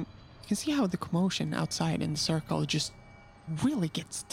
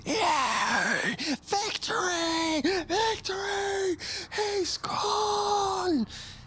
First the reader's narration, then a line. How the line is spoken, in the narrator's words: most of the guards up on the wall are just screaming out